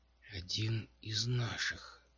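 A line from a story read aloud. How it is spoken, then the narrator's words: Breathed out. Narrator (Russian): выдохнуло Домино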